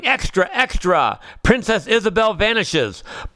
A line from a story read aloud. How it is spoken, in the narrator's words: hears the newsboy shouting